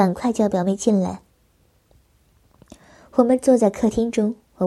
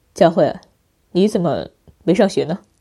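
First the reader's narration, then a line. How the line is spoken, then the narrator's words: Smiling. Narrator (Chinese): 表妹笑着说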